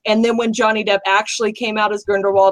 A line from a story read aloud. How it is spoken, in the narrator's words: I cried again